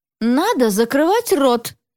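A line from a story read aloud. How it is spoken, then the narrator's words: Stern. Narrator (Russian): строго сказала ему Света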